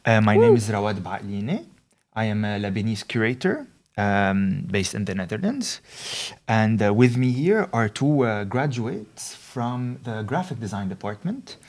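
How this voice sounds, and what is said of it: Lebanese French accent. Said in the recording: “my my horrible like Lebanese French accent.”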